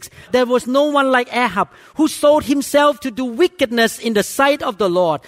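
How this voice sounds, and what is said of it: Speaks English with an accent. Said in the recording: “Forgive my accent.”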